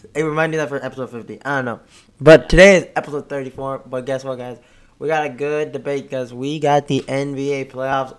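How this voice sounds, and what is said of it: Hoarse, strained voice. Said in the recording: “my voice has been a little... I think I lost my voice”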